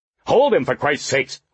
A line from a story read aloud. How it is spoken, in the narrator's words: Horlocker snapped